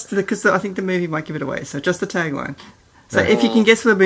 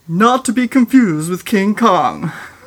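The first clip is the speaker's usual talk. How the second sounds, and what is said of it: Dramatic movie-trailer announcer voice. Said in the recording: “movie tagline voice ... It might sound bad”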